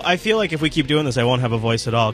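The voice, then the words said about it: Sore-throated voice from a cold. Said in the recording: “I have a little bit of a cold today, and it's one of those ones that only goes for my throat.”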